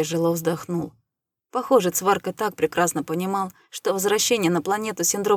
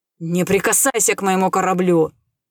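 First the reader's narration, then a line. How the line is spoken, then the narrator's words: Menacing growl. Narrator (Russian): угрожающе прорычал Рэй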